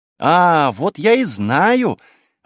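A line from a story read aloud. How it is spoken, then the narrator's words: Joyful child exclamation. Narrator (Russian): воскликнула крошка Полина, радостно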